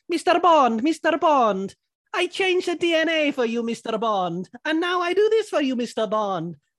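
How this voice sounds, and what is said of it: Comic foreign-accented character voice. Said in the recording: “Your accent there, I don't know if it was meant to be Russian, if it was meant to be Spanish ... That is a cracking Manuel from Fawlty Tower.”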